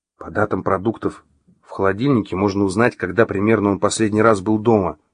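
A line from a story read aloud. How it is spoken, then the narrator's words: Whispered reply. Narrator (Russian): шепнула в ответ Маша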